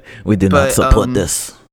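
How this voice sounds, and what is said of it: Bad put-on Russian accent. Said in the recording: “sorry for the bad Russian accent.”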